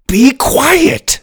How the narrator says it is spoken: Ben yelled

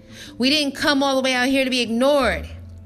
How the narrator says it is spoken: he shouted

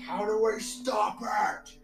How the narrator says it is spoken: he yells

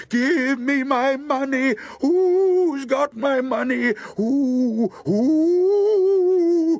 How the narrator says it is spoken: way off a voice cried

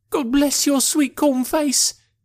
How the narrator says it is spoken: she cried with a hysterical sob

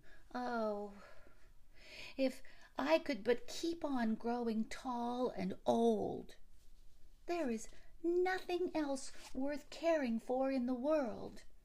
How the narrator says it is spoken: Yet, it remained unsatisfied and would exclaim

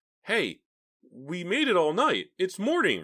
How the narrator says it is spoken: Ricky cried

